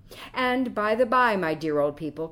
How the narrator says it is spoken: cried Quicksilver with the liveliest look of fun and mischief in his eyes

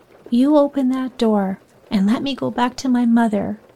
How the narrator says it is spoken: cried passionately

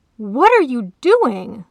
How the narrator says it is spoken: the lion roared

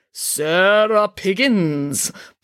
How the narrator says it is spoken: boomed Madame Zandra in her beautiful, resonant voice

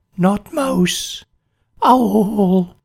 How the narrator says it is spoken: he croaked

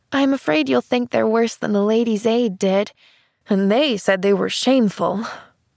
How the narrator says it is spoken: she sighed

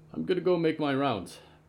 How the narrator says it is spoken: Byrne said

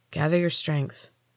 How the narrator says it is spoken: said quietly

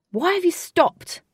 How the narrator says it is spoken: shouted Wraith

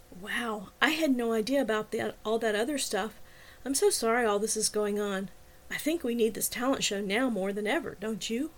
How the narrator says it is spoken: leaned over and whispered in my ear

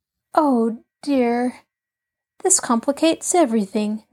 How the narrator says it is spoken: Nancy sighed

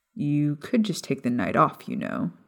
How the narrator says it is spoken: James suggested with a laugh

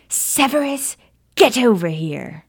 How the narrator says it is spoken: the gaunt woman yelled

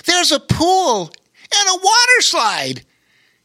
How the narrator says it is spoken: he exclaimed with excitement

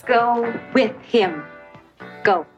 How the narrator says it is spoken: She slowly says

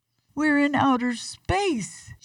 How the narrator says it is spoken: shouted Minnie

